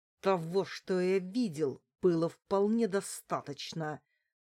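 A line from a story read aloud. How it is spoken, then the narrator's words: Through gritted teeth. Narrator (Russian): процедил сквозь зубы Степан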